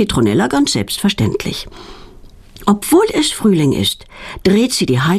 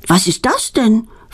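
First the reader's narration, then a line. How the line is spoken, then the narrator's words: Plain question. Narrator (German): fragt Claudia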